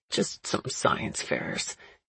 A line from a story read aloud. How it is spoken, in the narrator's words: he mumbled behind me